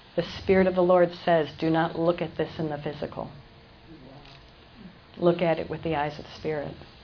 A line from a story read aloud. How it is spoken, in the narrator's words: whispered in my ear